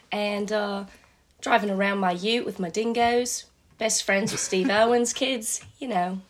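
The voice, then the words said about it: Put-on Australian accent. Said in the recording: “after living here for a few years, I've picked up the accent pretty well”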